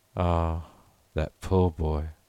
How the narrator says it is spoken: sighed Mrs

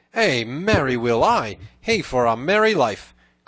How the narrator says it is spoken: cried he

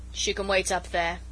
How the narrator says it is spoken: he said with a grunt

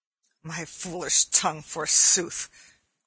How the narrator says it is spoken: growled Little John to Arthur a Bland

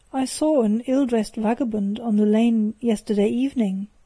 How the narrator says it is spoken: said Mr

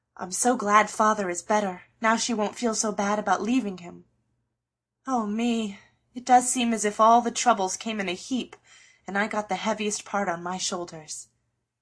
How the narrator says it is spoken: sighed Joe

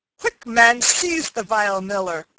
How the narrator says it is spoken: cried Stutely, who was nigh choking with laughter

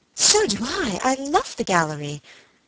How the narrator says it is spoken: Helen would have exclaimed

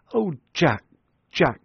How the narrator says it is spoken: she cried

